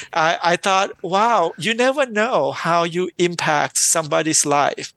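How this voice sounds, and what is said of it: Non-native English accent. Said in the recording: “she heard my speech with accent ... if my president has accent ... I usually think that the accent is something that I should be embarrassed”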